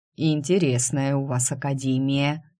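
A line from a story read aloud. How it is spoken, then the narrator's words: Amused snort. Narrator (Russian): хмыкнул Эриан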